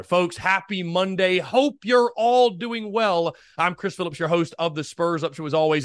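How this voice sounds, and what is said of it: High-energy, enthusiastic speaking voice. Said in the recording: “hear the energy in my voice ... I'm always bringing the energy ... I'm always bringing the heat”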